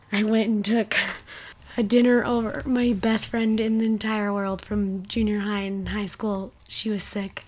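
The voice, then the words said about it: Slightly raspy voice. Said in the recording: “I sound a little raspy, ... I have been battling a cold”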